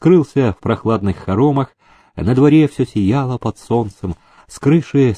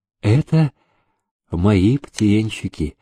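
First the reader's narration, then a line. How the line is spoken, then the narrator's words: Affectionate old woman. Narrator (Russian): ласково сказала Кондратьевна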